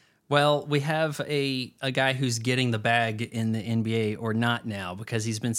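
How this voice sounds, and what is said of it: Usual voice. Nothing is said of it.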